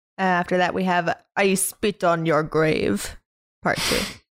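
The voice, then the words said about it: Put-on Russian accent. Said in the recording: “I felt like I needed to do that in a Russian accent ... Why do you need to do that in a Russian accent?”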